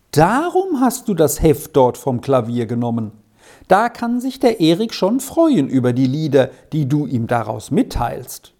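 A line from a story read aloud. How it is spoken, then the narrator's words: Said with a giggle. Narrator (German): sagte Edi und kicherte ein wenig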